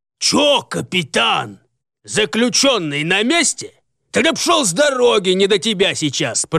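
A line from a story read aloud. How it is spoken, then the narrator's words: Commanding roar, fat man. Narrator (Russian): проревел властный возглас усатого толстяка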